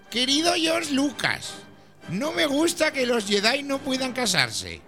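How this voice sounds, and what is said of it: Old man's voice. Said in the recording (Spanish): “esto es voz de viejo más que de crío”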